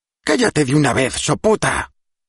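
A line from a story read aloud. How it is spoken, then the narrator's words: Old woman snapping. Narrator (Spanish): espetó la anciana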